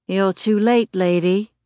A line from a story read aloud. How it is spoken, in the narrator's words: he slurs viciously